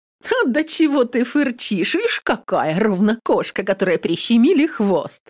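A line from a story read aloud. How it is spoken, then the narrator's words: Loud good-natured laughter. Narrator (Russian): Захохотала молодуха, ничуть не обидевшись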